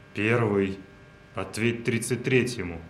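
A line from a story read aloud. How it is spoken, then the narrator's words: Strained radio call. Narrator (Russian): Выдавил из себя в эфир солдат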